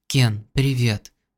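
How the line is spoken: Hoarse. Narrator (Russian): хрипло сказала

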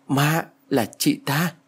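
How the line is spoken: Stammering. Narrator (Vietnamese): Tôi lắp bắp rồi nói

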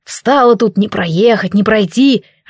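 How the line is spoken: Displeased grumble close by. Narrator (Russian): раздалось прямо над ухом недовольное ворчание

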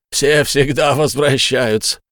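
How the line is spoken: Laughing, sputtering reply. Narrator (Russian): тот только расхохотался, брызгая слюной, и ответил

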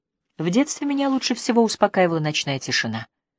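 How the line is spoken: Quiet. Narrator (Russian): тихо произнес Ажар

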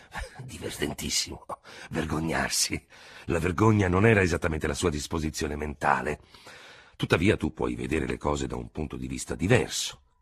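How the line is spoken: Grumbling. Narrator (Italian): brontolò d'Hubert

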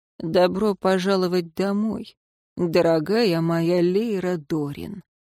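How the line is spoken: Soft. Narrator (Russian): мягко произнес Дин Шамис

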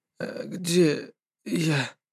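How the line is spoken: Hoarse question. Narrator (Russian): я хрипло спросил

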